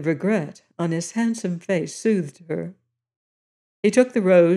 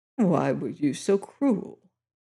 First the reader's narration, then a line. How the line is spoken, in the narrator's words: he murmured